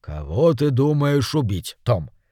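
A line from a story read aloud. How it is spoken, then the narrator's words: Plain. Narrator (Russian): спросил мэр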